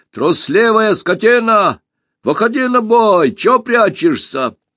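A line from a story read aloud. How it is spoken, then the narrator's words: Shouted. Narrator (Russian): закричал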